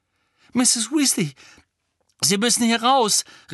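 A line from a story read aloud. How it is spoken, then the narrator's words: Calling out. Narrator (German): rief Harry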